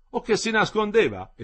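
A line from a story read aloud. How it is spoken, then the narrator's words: Dean exclaiming. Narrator (Italian): esclamò il decano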